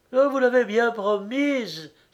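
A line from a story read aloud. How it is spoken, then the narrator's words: Exclaiming. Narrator (French): s'écria-t-elle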